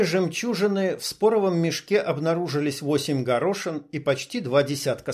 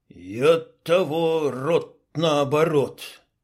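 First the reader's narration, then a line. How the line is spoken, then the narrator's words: Strained, forced out. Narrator (Russian): только и выдавил из себя Клоп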